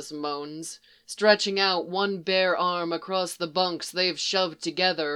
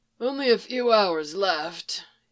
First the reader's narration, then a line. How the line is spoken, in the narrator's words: argues weakly